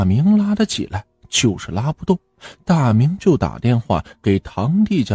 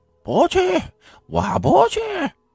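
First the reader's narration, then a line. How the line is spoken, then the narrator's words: Shouting while rolling. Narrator (Chinese): 王芳躺在这地上，就打着滚的喊着说道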